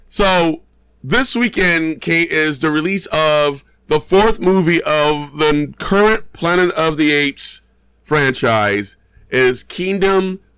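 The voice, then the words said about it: Messed-up voice from being sick. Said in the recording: “I apologize for my voice... my voice is all kind of jacked up. So if it goes crazy, I apologize... recovered from me being sick... it's all messed up”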